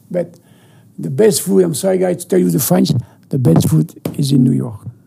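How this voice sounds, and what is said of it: French accent. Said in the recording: “American with a nice accent. ... Nice French accent.”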